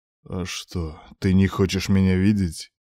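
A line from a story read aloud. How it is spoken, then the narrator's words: Muttered through clenched teeth. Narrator (Russian): Цедит сквозь зубы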